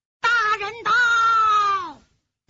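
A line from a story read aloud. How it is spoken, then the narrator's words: Shout from outside. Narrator (Chinese): 门外有人喊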